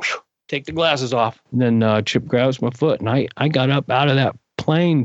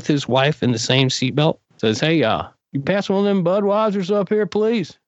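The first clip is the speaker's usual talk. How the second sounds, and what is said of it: Put-on Southern accent. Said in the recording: “I just do the Southern accent”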